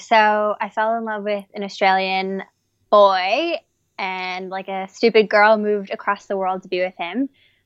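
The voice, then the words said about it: American accent. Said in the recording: “Clearly, you have an American accent.”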